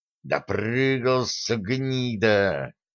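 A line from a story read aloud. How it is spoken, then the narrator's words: Angry hiss. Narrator (Russian): офицер и, выкатив глаза, злобно шипел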